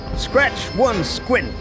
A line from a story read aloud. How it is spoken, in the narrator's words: he shouted